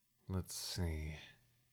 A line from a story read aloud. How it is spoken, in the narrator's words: he muttered to himself